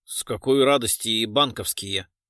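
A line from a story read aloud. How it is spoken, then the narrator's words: Unconvincing mutter. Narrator (Russian): не слишком убедительно пробормотал Леха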